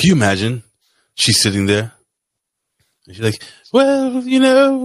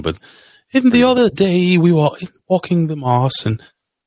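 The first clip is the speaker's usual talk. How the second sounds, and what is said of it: Weak imitation of English accent. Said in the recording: “I can't do a real English accent”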